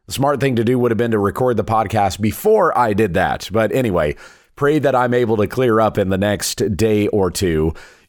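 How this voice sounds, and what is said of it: Weak, congested voice. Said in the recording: “I apologize for how weak my voice is. I am very congested.”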